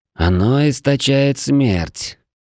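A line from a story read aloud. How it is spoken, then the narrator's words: Uncertain gloomy woman. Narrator (Russian): неуверенно сказала сумрачная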